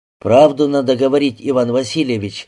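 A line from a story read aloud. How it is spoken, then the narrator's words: Stern. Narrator (Russian): строго сказал Антон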